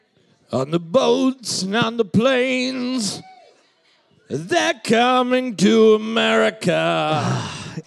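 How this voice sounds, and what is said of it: Imitates another person's singing voice. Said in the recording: “I need you to do the impersonation ... Do the fucking voice ... America by Neil Diamond”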